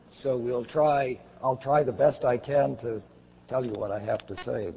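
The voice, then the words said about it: Hoarse, failing voice. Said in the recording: “I am losing my voice.”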